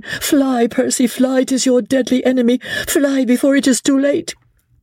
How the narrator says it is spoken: very nearly screamed out

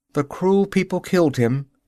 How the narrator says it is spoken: she said with a sob in the heart of every word

